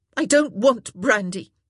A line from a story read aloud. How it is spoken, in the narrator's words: Daphne said sharply